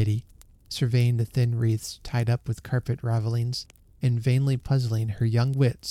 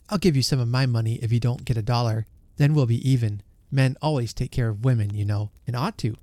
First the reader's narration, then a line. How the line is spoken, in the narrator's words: cried Sammy